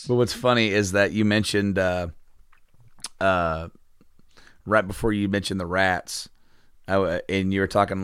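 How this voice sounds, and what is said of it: Strained, failing voice. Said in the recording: “I can't do it with my voice right now. I'm kind of losing my voice.”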